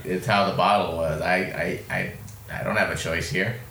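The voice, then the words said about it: Imitates another person's voice. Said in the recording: “that your impression of Damaris?”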